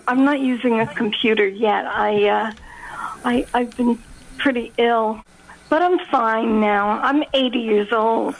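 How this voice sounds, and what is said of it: Youthful-sounding elderly woman's voice. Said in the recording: “You sound so young.”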